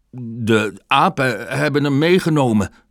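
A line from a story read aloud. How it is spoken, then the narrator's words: Stammering. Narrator (Dutch): stotterde Baloo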